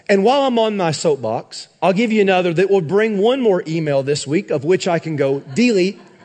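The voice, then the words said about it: Sarcastic delivery. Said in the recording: “I really say that sarcastically”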